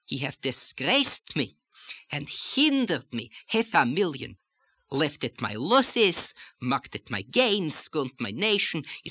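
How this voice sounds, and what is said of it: Light melodic lilt in speech. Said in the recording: “we can do a little of the lilt without getting stereotypic about it ... I'm using that lilt here for a purpose”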